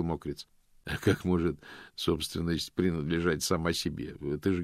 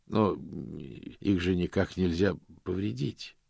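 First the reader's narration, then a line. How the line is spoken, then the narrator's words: Forced out. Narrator (Russian): выдавил он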